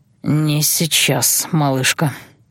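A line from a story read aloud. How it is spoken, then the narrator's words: Hoarse breathy exhale. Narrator (Russian): хрипло выдохнул он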